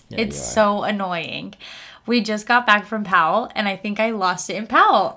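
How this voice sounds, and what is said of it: Hoarse voice cutting in and out. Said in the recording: “I'm losing my voice... I just feel like my voice is in and out”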